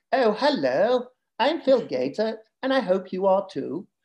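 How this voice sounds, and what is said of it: Put-on Southern English accent. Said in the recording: “they do a Southern English accent ... versus my Northern accent ... a bit flat, a bit different”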